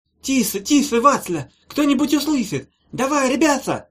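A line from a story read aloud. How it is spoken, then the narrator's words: Reproachful squeak. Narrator (Russian): Укоризненно пропищали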